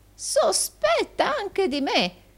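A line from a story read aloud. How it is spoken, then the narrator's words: Old man's exclamation. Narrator (Italian): esclamò il vecchio Arturo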